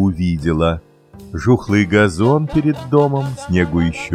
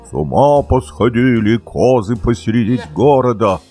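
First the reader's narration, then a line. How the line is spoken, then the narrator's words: Fat woman's thick shout. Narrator (Russian): толстая дворничиха и кричит толстым голосом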